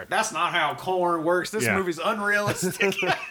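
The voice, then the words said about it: Impression of a corn farmer. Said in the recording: “my impression of every corn farmer ... his impression”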